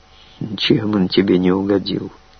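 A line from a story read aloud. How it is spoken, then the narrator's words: Grim question. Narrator (Russian): мрачно спросил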